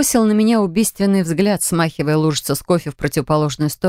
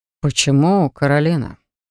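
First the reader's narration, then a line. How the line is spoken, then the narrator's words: Suspiciously soft question. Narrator (Russian): Спросил он как-то подозрительно мягко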